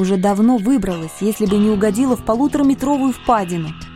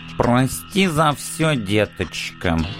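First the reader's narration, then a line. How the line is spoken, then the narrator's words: Sarcastic cat, into pit. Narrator (Russian): язвительно бросил мне в яму кот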